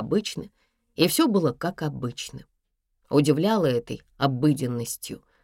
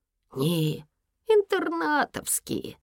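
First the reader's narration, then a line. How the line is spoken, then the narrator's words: Sleepy voice. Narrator (Russian): Еся говорил сонно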